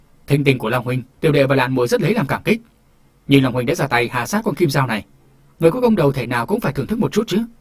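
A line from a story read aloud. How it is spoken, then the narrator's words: Loud overjoyed reply. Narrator (Vietnamese): Hồ Hùng nghe nói cả mừng, lớn tiếng đáp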